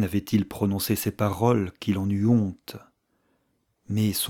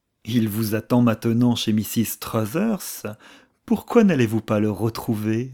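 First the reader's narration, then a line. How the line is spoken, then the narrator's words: Sneering. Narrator (French): ricana Archer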